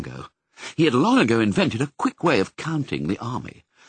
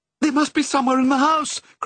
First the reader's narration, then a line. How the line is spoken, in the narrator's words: cried Mrs